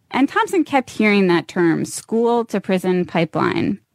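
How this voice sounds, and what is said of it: Creaky vocal fry. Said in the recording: “hear the way her voice kind of creaks on the word pipeline ... That's vocal fry”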